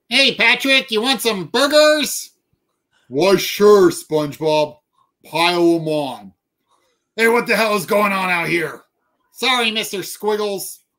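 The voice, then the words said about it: SpongeBob SquarePants character voice impressions. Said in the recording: “I did an impression of SpongeBob SquarePants to show how stupid I thought the show was ... I know all those are wrong”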